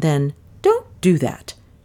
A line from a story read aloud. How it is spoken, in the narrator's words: she said sharply